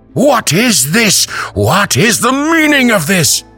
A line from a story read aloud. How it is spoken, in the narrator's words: The rubber baron shouting